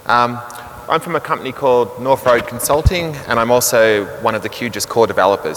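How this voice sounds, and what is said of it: Strong Australian accent. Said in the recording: “I'm from Australia, so I apologize for my accent. If it's a little difficult to understand, I realize it's quite strong.”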